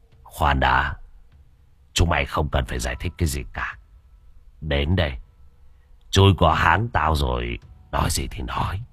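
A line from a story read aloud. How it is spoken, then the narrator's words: Cold voice. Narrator (Vietnamese): Đại ca Chọc giọng lạnh lùng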